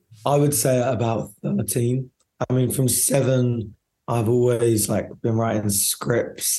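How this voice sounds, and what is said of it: Croaky, husky, partly lost voice. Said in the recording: “he was a bit croaky voiced after a night at his premiere ... I've just lost my voice a little bit ... a cool Hollywood husky voice”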